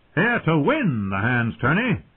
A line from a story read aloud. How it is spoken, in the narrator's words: Lord Beric shouted back